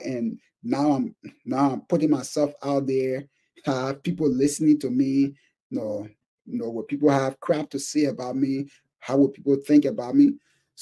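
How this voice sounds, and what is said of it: Thick African accent. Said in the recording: “I'm an African. I have a very thick accent.”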